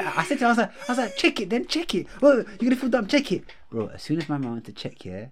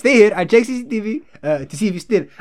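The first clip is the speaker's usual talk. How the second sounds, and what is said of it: Put-on foreign accent. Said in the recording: “how do I do his accent? ... can I do an accent without sounding racist?”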